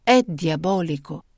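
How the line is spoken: Slow, deliberate enunciation. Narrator (Italian): scandì lentamente Sani

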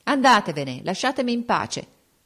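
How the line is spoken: Rude, unusually harsh exclamation. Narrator (Italian): sclamò con tono sgarbato che non aveva usato mai

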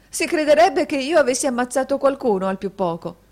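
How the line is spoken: Laughing exclamation. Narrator (Italian): esclamò la signorina Price con una risata

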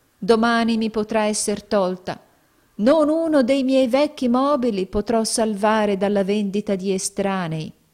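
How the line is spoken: Poor man sighing. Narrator (Italian): sospirò il poveretto

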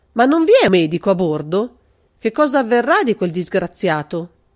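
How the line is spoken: Involuntary exclamation. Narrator (Italian): Involontariamente Carlo esclamò

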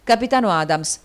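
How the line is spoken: Hurried exclamation. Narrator (Italian): esclamò in fretta Westwood

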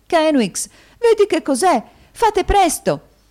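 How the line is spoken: Sister exclaiming. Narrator (Italian): esclamò la sorella

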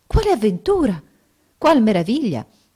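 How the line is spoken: Amazed exclamation. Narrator (Italian): Restò assai meravigliata al vedere le ulive mischiate alla polvere d'oro, sicché esclamò

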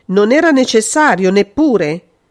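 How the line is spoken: Brutal, harsh exclamation. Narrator (Italian): esclamò, con brutalità da poliziotto

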